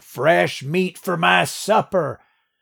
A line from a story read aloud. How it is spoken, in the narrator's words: to cackle like an old prospector in a Gold Rush movie